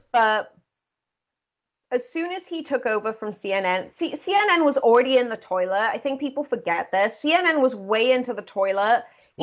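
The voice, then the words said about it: Natural Welsh accent. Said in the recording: “It's a Welsh accent. She's not faking it.”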